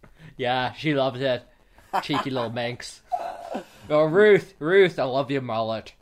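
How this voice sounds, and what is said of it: Drunk voice, wavering accent. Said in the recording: “I'm feeling really drunk. My accent's all over the place.”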